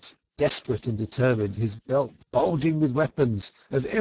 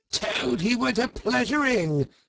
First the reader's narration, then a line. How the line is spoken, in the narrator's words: he yelled